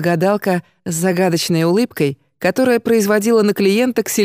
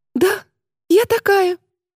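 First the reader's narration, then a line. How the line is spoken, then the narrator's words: Happy confirmation. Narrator (Russian): радостно подтвердила клиентка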